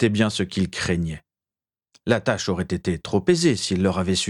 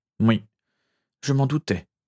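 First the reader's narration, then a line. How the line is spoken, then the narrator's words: Stammer. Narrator (French): bredouilla Régulus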